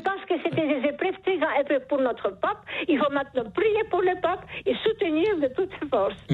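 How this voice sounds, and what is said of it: Charming regional accent in French. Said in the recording (French): “Vous avez un charmant accent ... ce joli accent”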